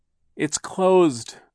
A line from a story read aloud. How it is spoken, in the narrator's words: Klaus cried, his voice rising with despair and in order to be heard over Hurricane Herman